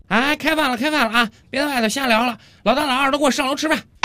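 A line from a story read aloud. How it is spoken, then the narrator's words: Woman shouting loudly downstairs. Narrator (Chinese): 王哥的老婆冲着楼下的王哥大声喊道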